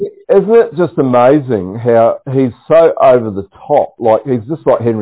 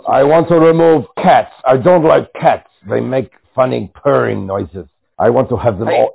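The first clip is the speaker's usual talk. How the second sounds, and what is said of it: Klaus Schwab impression, deep growling accent. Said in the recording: “It's not just an accent. They've got this growl in their voice, ... deep ... down inside.”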